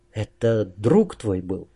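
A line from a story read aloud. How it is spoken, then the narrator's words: Barely audible. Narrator (Russian): еле слышно произнесла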